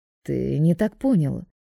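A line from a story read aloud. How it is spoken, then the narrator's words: Gloomy, dismissive. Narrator (Russian): мрачно отмахивается Роберто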